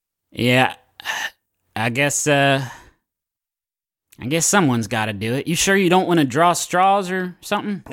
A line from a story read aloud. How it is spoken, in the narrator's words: Mama sees your packed up bag and she sighs, she says